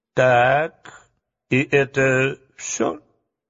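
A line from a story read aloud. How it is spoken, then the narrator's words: Calm question. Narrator (Russian): спокойно спросил дровосек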